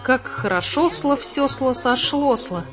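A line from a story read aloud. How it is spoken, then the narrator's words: Joyful. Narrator (Russian): радостно сказал Вивсла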